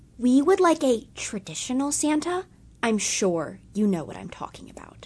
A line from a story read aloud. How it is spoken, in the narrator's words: a woman approached me and whispered